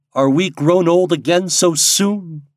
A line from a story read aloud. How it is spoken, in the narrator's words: cried they, dolefully